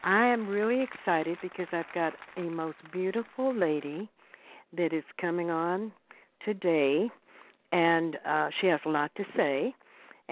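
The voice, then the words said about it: Hoarse, froggy voice. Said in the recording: “doing my best to keep the frog away... My voice is not normal because, excuse me, I'm still overcoming a cold”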